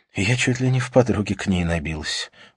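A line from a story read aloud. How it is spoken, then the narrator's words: Sighing. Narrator (Russian): вздохнула Катрина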